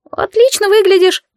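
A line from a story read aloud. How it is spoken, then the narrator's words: Squeaky. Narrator (Russian): пискнул Сиф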